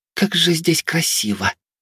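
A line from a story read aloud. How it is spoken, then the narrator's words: Whisper. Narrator (Russian): послышался шепот Вилеи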